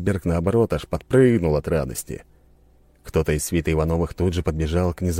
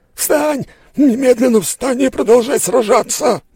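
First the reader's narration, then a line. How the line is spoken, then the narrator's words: Yelled. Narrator (Russian): заорал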